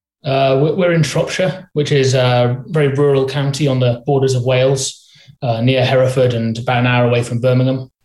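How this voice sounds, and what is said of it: English accent that sounds Welsh. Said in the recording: “I mistook your accent for Welsh”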